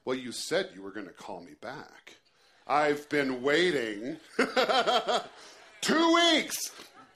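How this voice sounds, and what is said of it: Sarcastic, bitter, angry imitated voice. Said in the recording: “in her best sarcastic voice ... Bitter, angry.”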